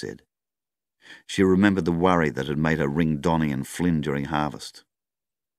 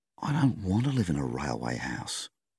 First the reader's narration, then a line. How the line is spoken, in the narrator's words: she breathed out heavily